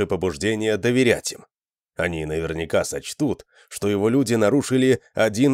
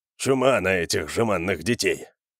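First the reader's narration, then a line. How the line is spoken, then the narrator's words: Muttering under breath. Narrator (Russian): пробормотал себе под нос Джаренс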